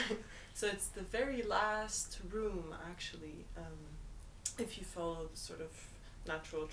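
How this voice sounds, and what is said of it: Usual voice. Nothing is said of it.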